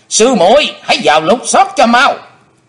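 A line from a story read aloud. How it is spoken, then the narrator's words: Shouting. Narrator (Vietnamese): hắn đã quát lên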